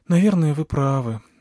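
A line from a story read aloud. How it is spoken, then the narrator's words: Sighing. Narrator (Russian): вздохнула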